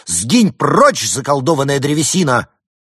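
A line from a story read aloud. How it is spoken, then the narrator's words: Loud exclamation. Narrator (Russian): Лис громко воскликнул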